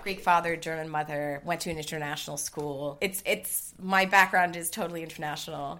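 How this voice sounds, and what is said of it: American accent. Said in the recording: “by your accent ... you are American ... hence the American accent”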